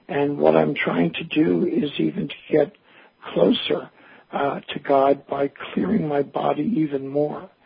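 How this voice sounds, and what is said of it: Hoarse, partly lost voice. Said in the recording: “As you can hear, I've lost my voice, or part of my voice, from detoxification.”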